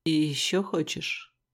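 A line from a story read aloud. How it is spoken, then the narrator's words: Hoarse question. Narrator (Russian): Хриплым голосом спросил Черный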